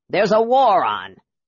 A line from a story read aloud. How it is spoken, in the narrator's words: Flint said loudly